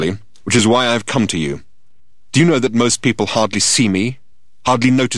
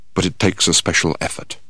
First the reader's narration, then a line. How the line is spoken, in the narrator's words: He then added in a quiet voice